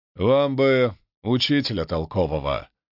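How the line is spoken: Snort, guardsman. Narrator (Russian): хмыкнул гвардеец

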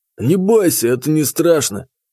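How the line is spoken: Hoarse wheeze, boar. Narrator (Russian): просипел с соседнего стола кабан

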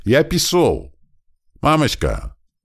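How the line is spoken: Cheerful yelling. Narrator (Russian): Весело орал он

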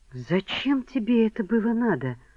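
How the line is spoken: Whisper. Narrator (Russian): прошептала

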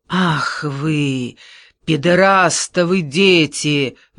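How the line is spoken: Roared. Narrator (Russian): взревел Рамбальдо

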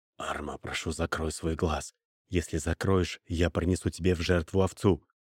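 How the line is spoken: Whisper. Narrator (Russian): прошептал Абарис

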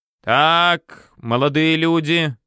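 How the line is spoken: Joyful creaky female voice. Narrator (Russian): радостно проскрипела она, увидав нас и услыхав стеклянное позвякивание

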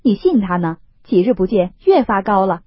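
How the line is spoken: Laughing. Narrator (Chinese): 宝玉笑道

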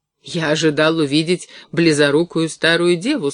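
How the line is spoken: Plain. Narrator (Russian): сказал я ей

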